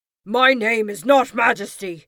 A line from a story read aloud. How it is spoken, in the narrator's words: roared the creature